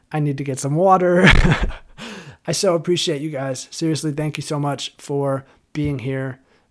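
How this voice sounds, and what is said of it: Hoarse voice. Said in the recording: “My voice is starting to get hoarse.”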